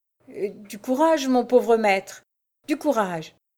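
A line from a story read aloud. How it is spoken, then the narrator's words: Stammered. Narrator (French): balbutia Jacques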